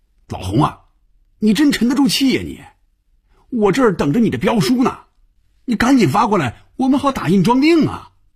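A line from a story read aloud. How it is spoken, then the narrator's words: Loud shouting. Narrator (Chinese): 范宇宙冲红军大声喊着，连坐在对面的菲比都能听得见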